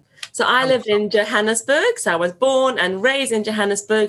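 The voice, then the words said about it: Fast speech with South African accent. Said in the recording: “I am known to talk really quickly ... everyone used to tell me I was talking too fast and my accent made it even harder to understand”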